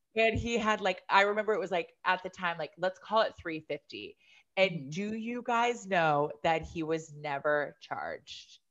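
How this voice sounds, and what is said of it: Country accent. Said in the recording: “I feel like I really have a country accent today.”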